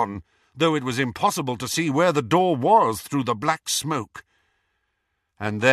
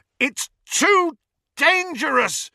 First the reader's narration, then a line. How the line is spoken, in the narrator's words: Ron yelled